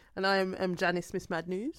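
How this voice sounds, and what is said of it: Sudden foreign-sounding accent. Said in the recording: “That rare foreign accent syndrome just kind of cropped in there”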